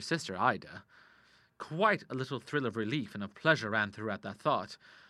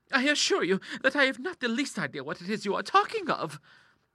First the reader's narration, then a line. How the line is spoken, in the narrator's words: cried Clara